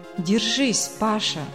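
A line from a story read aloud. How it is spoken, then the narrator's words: Muffled dull voice. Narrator (Russian): глухо произнесла она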